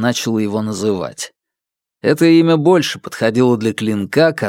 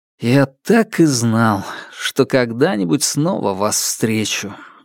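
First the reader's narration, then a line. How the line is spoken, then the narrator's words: Sighing. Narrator (Russian): вздохнул я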